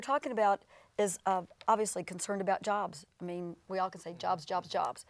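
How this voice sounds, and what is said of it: Worn, strained voice. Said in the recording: “that's why my voice is like this ... lots of talking, so forgive my voice.”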